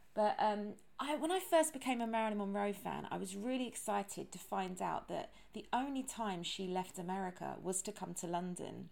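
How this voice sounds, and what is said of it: Strong British accent. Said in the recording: “I have a British accent ... you couldn't have a more British accent than me.”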